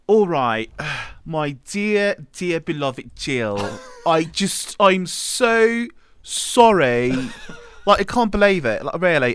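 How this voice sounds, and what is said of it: Terrible put-on British accent. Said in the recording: “our terrible British accents ... apologize in the accents that caused this mess. ... The British accent.”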